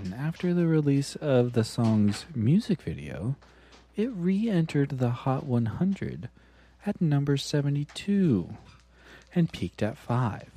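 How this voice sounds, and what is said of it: Radio announcer voice. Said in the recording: “NPR voice”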